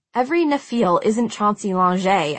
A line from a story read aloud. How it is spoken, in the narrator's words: I said testily